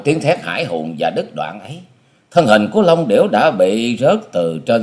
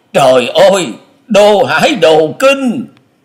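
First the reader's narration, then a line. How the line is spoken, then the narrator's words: Sudden panicked cry. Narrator (Vietnamese): Long Hải Kiếm Khách chợt hớt hải kêu lên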